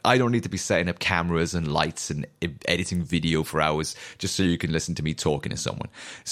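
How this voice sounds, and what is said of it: Newport Welsh accent. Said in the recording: “the dulcet tones of my chavvy Newport accent”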